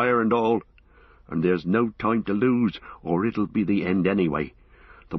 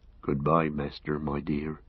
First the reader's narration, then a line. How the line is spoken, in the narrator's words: he murmured